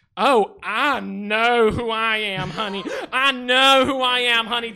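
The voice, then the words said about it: Put-on Western American accent. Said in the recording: “throw in a Western accent that your blonde white woman for some reason thinks gives her statement pack more of a punch”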